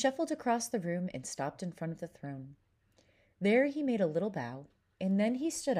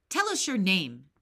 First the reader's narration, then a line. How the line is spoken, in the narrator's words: said the king in a gruff, angry voice